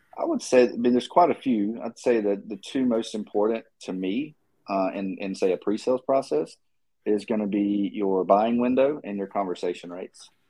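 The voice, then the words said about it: Southern drawl accent. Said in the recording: “It's the Southern drawl, man. It gets everybody.”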